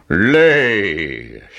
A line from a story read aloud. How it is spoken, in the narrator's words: shouted the giant